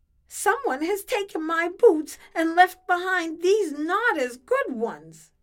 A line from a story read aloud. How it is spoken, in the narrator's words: wailed